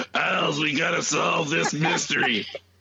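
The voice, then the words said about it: Raspy imitated female TV voice. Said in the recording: “Brenda Vaccaro, Margot Kidder voices ... PMR loves a raspy voice ... I love that raspy voice”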